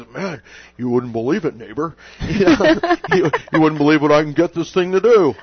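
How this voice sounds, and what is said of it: Poor imitation of another person's voice. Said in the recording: “That was a terrible Rick Murphy impression.”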